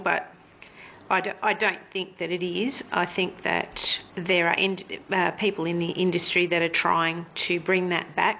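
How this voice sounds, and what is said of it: Emotional, choked-up voice. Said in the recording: “I'm getting a bit emotional”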